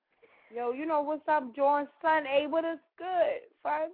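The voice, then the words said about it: Put-on New York accent. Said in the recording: “I'm gonna do it like they do in New York ... my New York impression. That's all I could do.”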